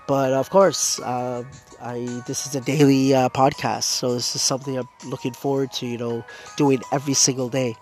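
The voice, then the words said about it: Congested, stuffy-nosed voice. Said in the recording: “I do have a blocked nose... I have a blocked nose, both nostrils... I was losing my voice. It's a little bit better right now, but it still hurts a bit”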